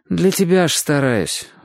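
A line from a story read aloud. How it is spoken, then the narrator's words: Sighing. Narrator (Russian): вздохнул Чик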